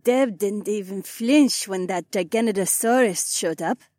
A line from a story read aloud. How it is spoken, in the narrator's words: the Korean chuckled